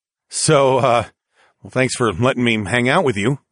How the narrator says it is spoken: I chuckled

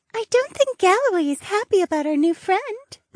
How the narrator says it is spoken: Mariah giggled from my spiritual sea

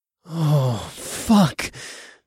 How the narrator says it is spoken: I groaned

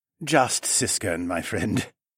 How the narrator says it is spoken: he chuckled

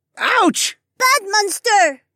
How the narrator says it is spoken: Mira cried

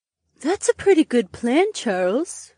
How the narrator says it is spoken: Daisy breathed

